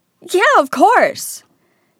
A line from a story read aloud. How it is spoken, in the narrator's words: said Harry loudly